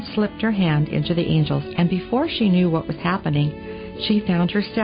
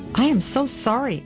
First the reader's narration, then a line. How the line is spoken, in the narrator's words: Anne cried